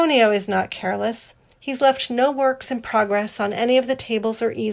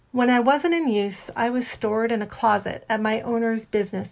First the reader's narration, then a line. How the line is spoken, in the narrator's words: Antonio says evenly